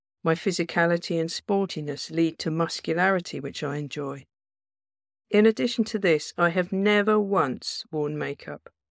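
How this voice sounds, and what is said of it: Quite deep voice. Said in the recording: “I have quite a deep voice.”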